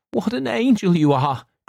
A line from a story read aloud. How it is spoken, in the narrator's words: cried the young Duke